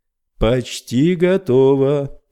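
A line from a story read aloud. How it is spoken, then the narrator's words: Chanted shout from darkness. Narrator (Russian): нараспев прокричал Рой откуда-то из мрака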